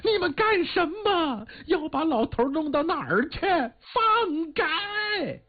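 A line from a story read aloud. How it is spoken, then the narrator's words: Anxious shout. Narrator (Chinese): 老太太急了，喊了声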